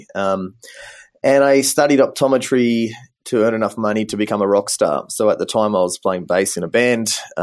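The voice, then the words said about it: Australian accent. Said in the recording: “as you can probably hear from my accent, I'm originally from Australia”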